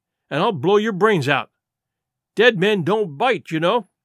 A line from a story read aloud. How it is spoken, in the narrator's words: I added with a chuckle